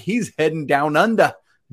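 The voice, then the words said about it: Poor attempt at Australian accent. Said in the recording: “Was that Australian? I don't know. I'm terrible at accents. ... forgive me, everyone, for butchering that. I'm so bad at accents.”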